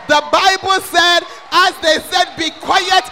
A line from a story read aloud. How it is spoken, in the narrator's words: he shouted louder